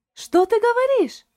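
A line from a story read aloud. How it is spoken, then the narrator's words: Surprised exclamation. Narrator (Russian): воскликнула Шарлотта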